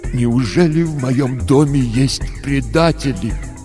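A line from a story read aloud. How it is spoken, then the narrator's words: Tragic voice, father. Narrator (Russian): отец сказал трагическим голосом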